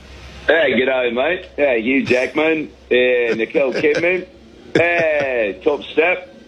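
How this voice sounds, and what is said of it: Put-on Australian accent. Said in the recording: “out here down under, and picked up a little bit of an accent”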